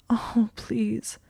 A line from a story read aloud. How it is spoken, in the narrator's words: she said in a sobbing whisper